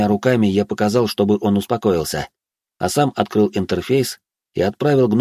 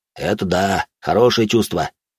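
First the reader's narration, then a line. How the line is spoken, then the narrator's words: Satisfied snort. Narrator (Russian): хмыкнул удовлетворенно рыжий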